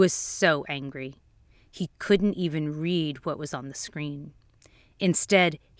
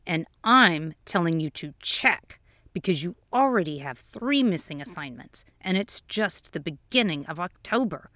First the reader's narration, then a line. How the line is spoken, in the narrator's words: growled the father through clenched teeth